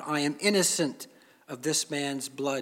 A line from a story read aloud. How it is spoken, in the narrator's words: said